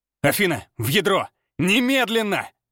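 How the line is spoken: Forceful mental bark. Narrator (Russian): Мысленно рявкнул я, продавливая приказ через нашу связь с такой силой

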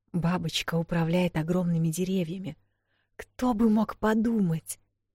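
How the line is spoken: Admiring whisper. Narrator (Russian): восхищенно зашептала Вэл

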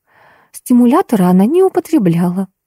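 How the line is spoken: Timid objection. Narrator (Russian): робко возразила Алиса

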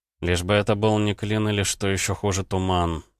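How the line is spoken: Muttering. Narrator (Russian): пробормотал парень

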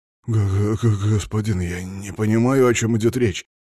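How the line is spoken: Mumbled. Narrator (Russian): промямлил княжич

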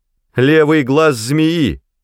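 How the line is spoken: Shout. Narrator (Russian): закричала Найда

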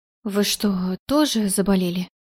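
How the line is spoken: Confused, worried mutter. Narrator (Russian): Совершенно сбитая с толку поведением свекрови, обеспокоенно пробормотала я

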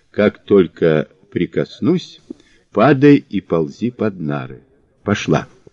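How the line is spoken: Whisper. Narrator (Russian): Мазур шепнул

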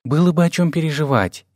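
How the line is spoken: Barely audible speech. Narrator (Russian): еле слышно говорила взрывашка

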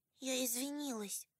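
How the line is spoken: Quiet. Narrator (Russian): тихо сказала Келли

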